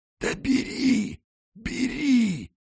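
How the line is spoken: Wheezy rasp. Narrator (Russian): просипела игуана

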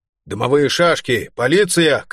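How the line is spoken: Shouting monkey. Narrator (Russian): крикнула одна обезьяна

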